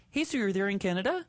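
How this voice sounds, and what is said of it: Put-on Canadian accent. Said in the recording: “I'm going to bust out my Canadian. I know I could speak Canadian. ... is your Canadian going to sound like Minnesota or North Dakota”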